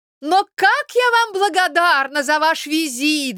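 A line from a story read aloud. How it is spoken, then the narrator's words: Excited shout. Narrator (Russian): закричала она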